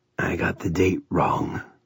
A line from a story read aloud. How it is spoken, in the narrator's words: he said in a brooding voice